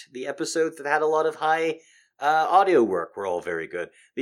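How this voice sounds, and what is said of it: Tired, fatigued voice. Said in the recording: “just listen to how my voice sounds ... I am suddenly a little bit tired ... I'm suddenly just a little bit fatigued. So that's why I'm running out of gas.”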